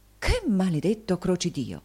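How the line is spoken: Frightened exclamation. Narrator (Italian): volgendosi spaventato, esclamò

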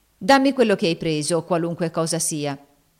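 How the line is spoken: Firm voice. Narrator (Italian): disse Ofelia con voce ferma

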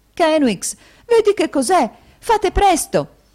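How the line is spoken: Urgent exclamation. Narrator (Italian): esclamò la sorella

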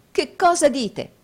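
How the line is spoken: Exclaiming. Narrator (Italian): esclamò Nicola

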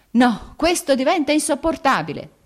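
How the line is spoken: Shouted. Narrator (Italian): gridò Vronsky

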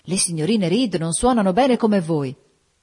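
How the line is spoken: Enthusiastic exclamation. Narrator (Italian): esclamò con entusiasmo

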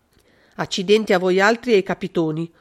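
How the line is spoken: Harsh muffled yell. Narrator (Italian): urlò con voce aspra, cacciando la testa sotto le coperte

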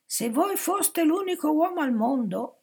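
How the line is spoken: Exasperated woman shouting. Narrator (Italian): gridò esasperata

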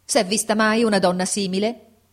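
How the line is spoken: Shouting. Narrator (Italian): gridò

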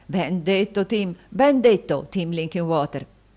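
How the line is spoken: Joyful exclamation. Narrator (Italian): esclamò il fratello Carlo, appena meno lieto dello stesso Tim

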